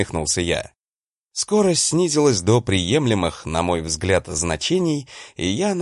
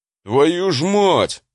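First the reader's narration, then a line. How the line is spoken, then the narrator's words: Howl. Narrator (Russian): взвыл он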